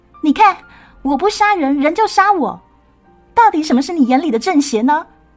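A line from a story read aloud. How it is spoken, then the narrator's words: Vicious shout. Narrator (Chinese): 他恶狠狠的对段福峰喊道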